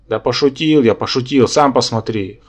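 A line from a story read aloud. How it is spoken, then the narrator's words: Amused snort. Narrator (Russian): хмыкнул я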